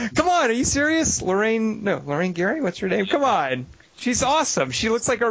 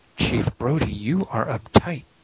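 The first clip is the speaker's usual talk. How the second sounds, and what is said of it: Put-on sexy voice. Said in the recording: “Let me try to get my voice right. I imagine that I have a sexy voice. ... It's not sexy coming from her.”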